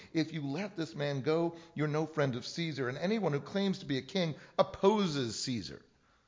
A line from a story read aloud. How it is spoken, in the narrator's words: the Jews kept shouting